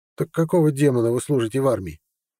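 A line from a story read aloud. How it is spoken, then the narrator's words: Sharp reply. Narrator (Russian): так же резко ответил Серд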